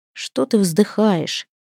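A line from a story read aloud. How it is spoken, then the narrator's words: Sleepy mumbling. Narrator (Russian): сонно пробурчал Свен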